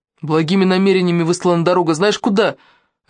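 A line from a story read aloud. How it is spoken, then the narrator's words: Barked. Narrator (Russian): рявкнула Санчо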